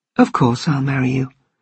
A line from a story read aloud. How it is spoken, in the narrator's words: said quietly